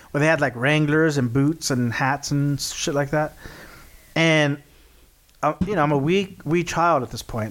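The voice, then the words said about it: Texas accent. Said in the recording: “we're from Texas... I don't know if you guys can tell about this by this accent”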